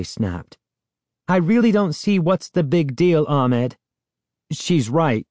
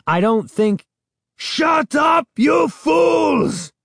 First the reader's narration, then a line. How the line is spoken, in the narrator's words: Ahmed screamed